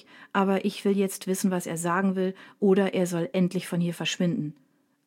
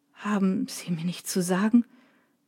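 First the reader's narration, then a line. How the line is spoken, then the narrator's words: Choked question. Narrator (German): fragt Drake mit erstickter Stimme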